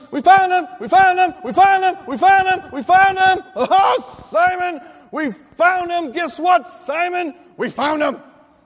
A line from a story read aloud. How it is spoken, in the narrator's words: he runs up shouting